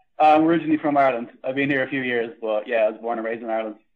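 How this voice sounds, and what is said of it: Irish accent. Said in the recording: “you don't have a typical Canadian accent”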